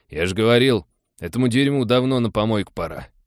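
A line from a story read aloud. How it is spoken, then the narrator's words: Grumbled. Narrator (Russian): проворчал Эдик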